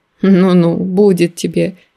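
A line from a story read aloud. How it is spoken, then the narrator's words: Laughing. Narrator (Russian): рассмеялся он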